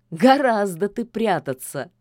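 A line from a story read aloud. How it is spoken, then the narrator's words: Laughing. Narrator (Russian): засмеялся Кощей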